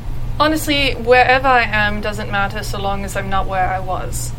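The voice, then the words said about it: British accent. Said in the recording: “do you have a British accent? ... Yes.”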